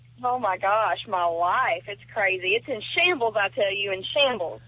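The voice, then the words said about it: Noticeable regional accent. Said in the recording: “he loves your accent.”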